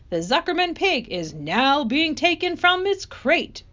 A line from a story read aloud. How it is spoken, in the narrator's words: boomed the voice of the loudspeaker